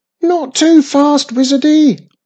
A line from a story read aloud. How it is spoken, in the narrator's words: shouted Mum after her